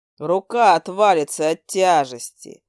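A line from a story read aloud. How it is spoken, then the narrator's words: Gloomy. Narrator (Russian): мрачно заявил он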